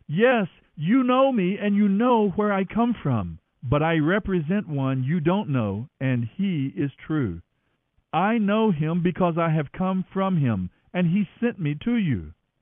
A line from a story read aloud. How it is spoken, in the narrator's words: he called out